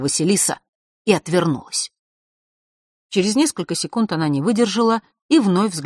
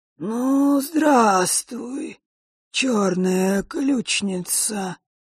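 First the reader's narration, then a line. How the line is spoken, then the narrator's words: Creaky voice. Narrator (Russian): проскрипел Острогор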